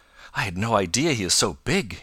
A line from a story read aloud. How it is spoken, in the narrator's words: he exclaimed